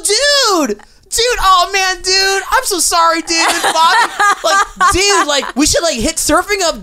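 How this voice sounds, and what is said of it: Nervous surfer-dude voice. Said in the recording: “That's your Filipino dude voice. That's my surfer voice. ... You're a surfer trying to be cool but also like nervous.”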